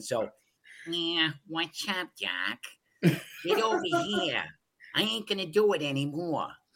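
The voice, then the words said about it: Cartoon rabbit Brooklyn accent. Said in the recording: “I'm going to do my Bugs Bunny Brooklyn accent.”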